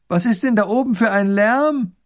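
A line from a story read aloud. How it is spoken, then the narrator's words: Distant call from below. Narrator (German): Die Prinzessin ruft vom Fuß des Hügels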